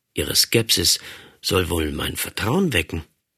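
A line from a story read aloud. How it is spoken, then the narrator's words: Muttering to oneself. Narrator (German): murmelte ich vor mich hin, als denke ich halblaut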